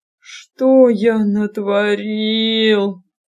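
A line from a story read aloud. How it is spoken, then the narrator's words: Moaning. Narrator (Russian): простонал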